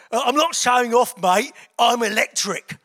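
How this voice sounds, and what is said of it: Cockney accent. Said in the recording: “in a real Cockney accent”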